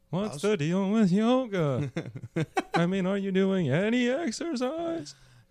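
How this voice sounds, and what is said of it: Jerry Seinfeld impression. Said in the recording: “it's hot to do a Jerry Seinfeld impression right now”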